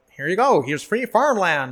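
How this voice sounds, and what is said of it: Twangy put-on accent. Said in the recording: “I don't know why that speaker was in the twang.”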